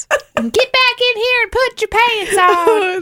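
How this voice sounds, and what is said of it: Shrieking backwoods accent. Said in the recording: “that funny. Accent ... that shrieking backwoods voice”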